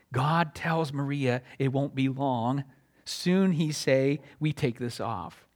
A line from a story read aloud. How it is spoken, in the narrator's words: Maria whispered